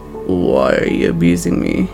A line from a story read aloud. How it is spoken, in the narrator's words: He asked, his voice thick with sleep